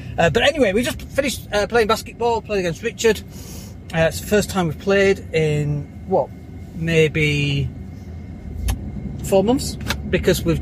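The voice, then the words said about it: Out of breath speaking. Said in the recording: “I'm A, out of breath”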